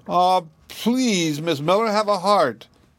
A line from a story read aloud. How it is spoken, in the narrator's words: Dickie seemed to be more worried about the ball than about the woodshed, for he whined